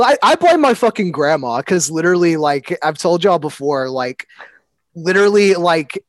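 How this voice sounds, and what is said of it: Usual voice. Nothing is said of it.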